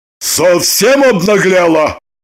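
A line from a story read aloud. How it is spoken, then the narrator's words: Loud bark. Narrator (Russian): гаркнул мигом пришедший в себя Желтухин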